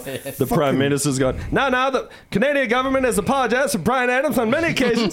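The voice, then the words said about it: Trey Parker's South Park newscaster voice. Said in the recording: “That's a great impression, by the way. ... It's that same News of the World voice. That's Trey Parker doing that”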